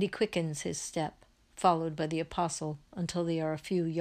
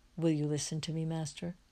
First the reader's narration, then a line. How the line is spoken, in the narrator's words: always shy, he says to him in a low voice